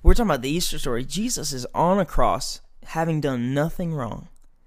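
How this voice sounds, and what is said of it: Fired-up preacher voice. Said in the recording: “I'll get into my preacher voice and I'll get fired up.”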